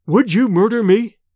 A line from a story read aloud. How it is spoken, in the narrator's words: he stammered